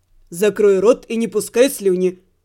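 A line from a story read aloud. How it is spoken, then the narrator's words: Rough interrupting voice. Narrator (Russian): Грубо ворвался голос Кита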